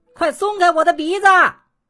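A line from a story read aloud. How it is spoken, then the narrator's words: Shouting. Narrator (Chinese): 恶作剧先生又叫起来了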